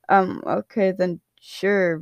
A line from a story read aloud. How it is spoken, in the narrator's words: Virgil mumbled